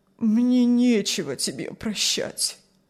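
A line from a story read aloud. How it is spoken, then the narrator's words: Sad old man's reply. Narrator (Russian): ответил старик печально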